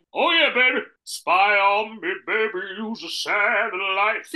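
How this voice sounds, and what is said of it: Imitates another person's voice. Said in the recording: “Do your Tom Jones ... your Belgian impression”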